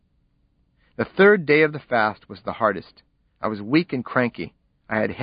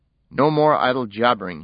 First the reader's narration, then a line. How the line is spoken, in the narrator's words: he said